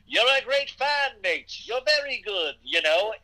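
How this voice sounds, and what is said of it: Put-on accent. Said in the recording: “he starts doing accent work”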